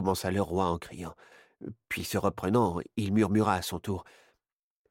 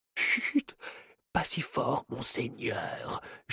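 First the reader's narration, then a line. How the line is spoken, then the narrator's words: Frightened man whispering. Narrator (French): chuchota l'homme apeuré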